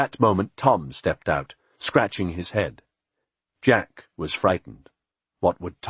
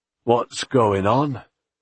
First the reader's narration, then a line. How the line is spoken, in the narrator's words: Tom said sleepily